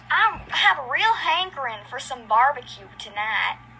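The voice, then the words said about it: Put-on Southern accent. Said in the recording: “practicing my beautiful Southern accent ... That's my Southern accent.”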